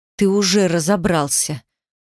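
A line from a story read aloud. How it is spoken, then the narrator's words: Hissing, spitting words out. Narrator (Russian): Буквально выплевывая слова, прошипела я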